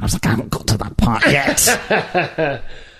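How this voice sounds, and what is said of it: Angry put-upon small man voice. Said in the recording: “That voice that you did just then... a small neurotic, or not neurotic, but a put-upon man... Angry”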